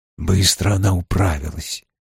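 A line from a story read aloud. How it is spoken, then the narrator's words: Quiet, through teeth, pipe in mouth. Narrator (Russian): тихо произнес Том, не разжимая зубов и не вынимая изо рта трубки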